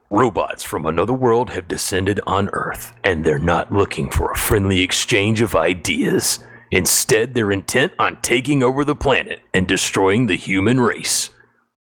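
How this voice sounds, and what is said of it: Movie trailer narrator voice. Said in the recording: “I could give it that little movie voice.”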